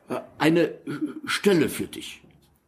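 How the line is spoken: Suppressed stutter. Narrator (German): sagte er mit einer kurzen Kopfbewegung, um sein Stottern unter Kontrolle zu bringen

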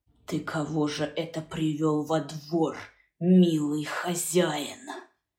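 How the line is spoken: Shaken, hissing broken whisper. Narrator (Russian): Голоса не узнал потрясенный Яков Лукич, будто кто-то третий, невидимый, задал ему этот вопрос свистящим, прерывающимся шепотом

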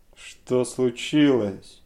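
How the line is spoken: Angry shout. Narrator (Russian): закричал он сердито

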